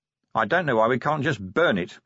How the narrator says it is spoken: grumbled Vimes

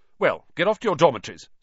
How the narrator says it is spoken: said Percy sternly

